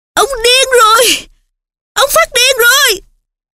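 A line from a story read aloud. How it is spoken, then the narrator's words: Shout. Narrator (Vietnamese): Nó hét lên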